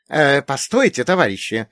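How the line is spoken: Exclaiming. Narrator (Russian): воскликнул профессор Трефилов

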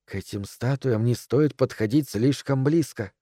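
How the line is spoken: Whisper. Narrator (Russian): шепнула миссис Дэрроу

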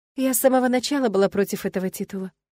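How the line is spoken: Calm speech. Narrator (Russian): спокойно потягивая вино, проговорила Эллен

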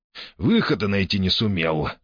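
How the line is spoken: Short chuckle. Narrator (Russian): хохотнул Джакс

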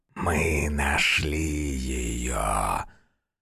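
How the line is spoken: Hissing shadow. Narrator (Russian): Прошипела одна из теней

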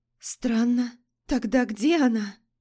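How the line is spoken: Hoarse, shaken question. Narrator (Russian): хрипло спросила Лорея, бледнее от своей догадки

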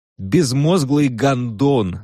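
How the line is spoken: Shouting back. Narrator (Russian): заорал он в ответ

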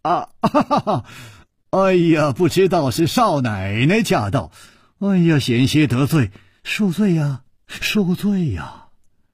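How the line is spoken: Smiling. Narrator (Chinese): 楚留香微笑着说

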